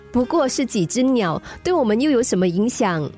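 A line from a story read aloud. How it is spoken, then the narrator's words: Laughing woman. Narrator (Chinese): 女子笑了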